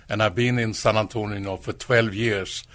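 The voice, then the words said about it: Swedish accent in English. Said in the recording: “you have a different type of accent ... people will hear that I'm not from United States ... I come from Sweden ... I speak very good Swenglish”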